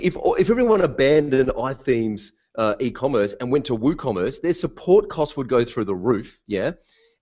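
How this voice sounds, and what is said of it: Animated speaker with a distinctive accent. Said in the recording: “I'm too animated and I've got this weird accent”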